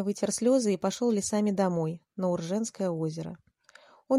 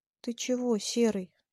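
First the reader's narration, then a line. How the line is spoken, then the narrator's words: Quiet question. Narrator (Russian): тихо спросил Ваня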